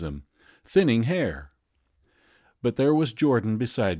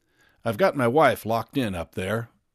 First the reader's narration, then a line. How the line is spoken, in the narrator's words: explained Wilson calmly